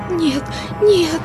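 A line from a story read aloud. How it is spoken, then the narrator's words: Frantic pleading whisper. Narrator (Russian): взмолилась она неистовым шепотом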